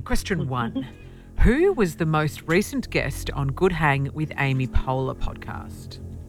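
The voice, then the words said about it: Formal newsreader-style voice. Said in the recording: “I'm going to do it in my newsreader voice.”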